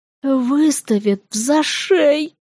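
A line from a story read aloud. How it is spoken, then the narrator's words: Tragic whispered complaint. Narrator (Russian): трагичным шепотом пожаловался он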